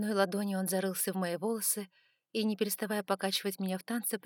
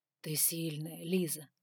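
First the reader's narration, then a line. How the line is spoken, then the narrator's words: Whisper. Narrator (Russian): прошептал он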